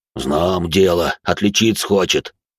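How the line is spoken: Almost growling, bull-creature. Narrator (Russian): разве что не прорычал Минотавр

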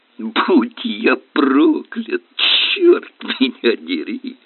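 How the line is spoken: Grinning exclamation. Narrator (Russian): широкая улыбка, и он воскликнул

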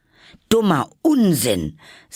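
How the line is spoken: Loud. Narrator (German): sagte Alice laut

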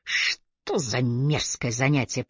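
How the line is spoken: Muttered under breath. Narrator (Russian): пробурчал он под нос

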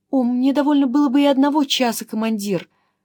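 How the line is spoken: Timid, meek, pleading. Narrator (Russian): продолжал все так же робко своим кротким молящим голосом Кедик

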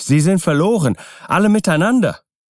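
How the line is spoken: Called out. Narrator (German): rief ich

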